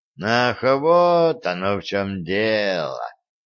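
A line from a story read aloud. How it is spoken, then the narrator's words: Drawled. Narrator (Russian): протянул Кощей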